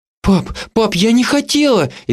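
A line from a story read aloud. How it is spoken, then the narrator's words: Frightened tearful rapid chatter. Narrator (Russian): испуганно затараторила, и ее глаза наполнились слезами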